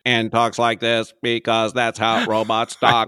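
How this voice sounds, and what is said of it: Robotic character voice. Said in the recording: “robot voice”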